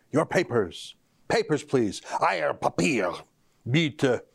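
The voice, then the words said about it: Put-on German accent. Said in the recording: “Forgive my accent.”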